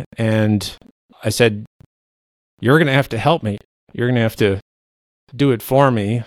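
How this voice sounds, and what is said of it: Emotional, choked-up voice. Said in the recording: “Sorry, I'm getting emotional because I'm sort of reliving it here.”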